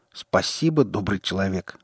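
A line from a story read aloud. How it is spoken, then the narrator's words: Snort. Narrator (Russian): фыркнул наемник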